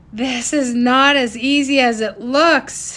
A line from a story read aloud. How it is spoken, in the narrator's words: he shouted down to Sage